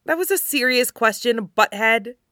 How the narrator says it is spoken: she snaps

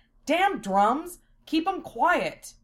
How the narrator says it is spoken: Lena jumped at the noise and shouted

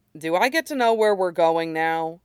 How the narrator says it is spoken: he asks Wolf dryly

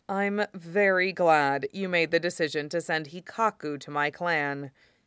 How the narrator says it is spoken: he says dryly

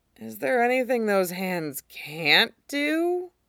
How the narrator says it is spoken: Tim mumbled into the bed

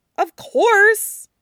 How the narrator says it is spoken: he scoffs insulted

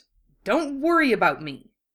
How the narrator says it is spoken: Wufei snapped

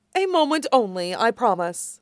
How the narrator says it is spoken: Zevran says

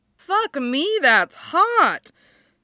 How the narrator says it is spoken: she announces cheerfully

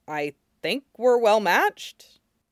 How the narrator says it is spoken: he said a little hesitantly

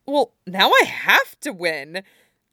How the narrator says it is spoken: says excitedly

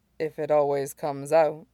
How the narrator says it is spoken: he asked softly

